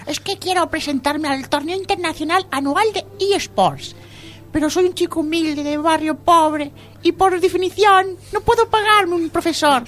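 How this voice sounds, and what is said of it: Put-on Galician Spanish accent. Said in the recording (Spanish): “Se ha vuelto gallego el niño. ... A pesar de tu acento”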